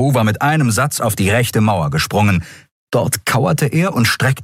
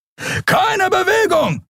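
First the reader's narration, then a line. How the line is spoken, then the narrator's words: Shouting. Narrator (German): schrie ein Weißmantel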